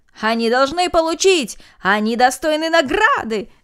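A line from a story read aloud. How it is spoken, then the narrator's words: Crowd shouting together. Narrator (Russian): закричали все без исключения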